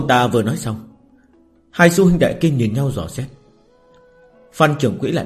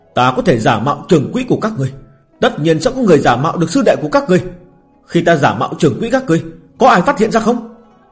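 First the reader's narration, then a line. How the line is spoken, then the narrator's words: Hurried shout. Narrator (Vietnamese): Phan Trường Quỹ giả vội la lên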